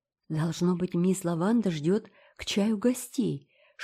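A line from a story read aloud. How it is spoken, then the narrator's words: Whispering. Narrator (Russian): шепнула Энн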